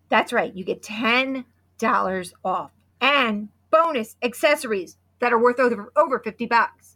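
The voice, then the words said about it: Hoarse, fading voice. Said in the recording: “I'm losing my voice ... my voice is gone ... Wow, listen to my voice.”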